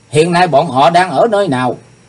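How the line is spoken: Loud shout. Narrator (Vietnamese): Chàng quát to lên

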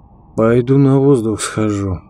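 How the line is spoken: Flat, colorless voice. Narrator (Russian): сказал Леменков бесцветным голосом

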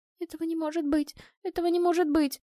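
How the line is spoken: Repeating through sobs. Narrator (Russian): повторяла сквозь всхлипы Тася

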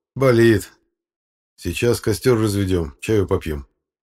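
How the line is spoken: Plain. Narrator (Russian): сказал я

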